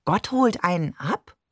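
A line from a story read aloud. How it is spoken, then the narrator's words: Plain. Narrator (German): fragte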